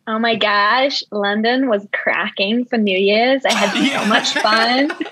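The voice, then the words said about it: Put-on American valley accent. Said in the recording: “Let's hear an American. ... I think I've got like the valley hype though. Maybe I've been around too many Californians.”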